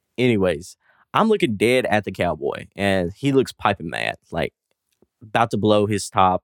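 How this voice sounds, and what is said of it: East Texas country drawl. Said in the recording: “I'm actually from East Texas, and all of us talk with that country drawl. You hear it in my episodes all the time.”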